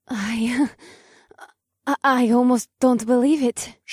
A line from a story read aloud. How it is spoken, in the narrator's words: she gasped